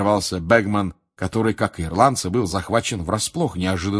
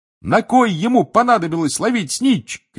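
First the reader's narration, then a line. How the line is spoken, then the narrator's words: Shouting. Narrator (Russian): кричал Рон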